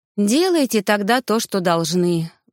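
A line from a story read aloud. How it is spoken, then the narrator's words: Resigned sigh. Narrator (Russian): вздохнула я, смирившись с происходящим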